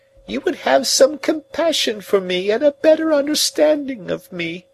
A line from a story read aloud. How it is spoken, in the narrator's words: she pleaded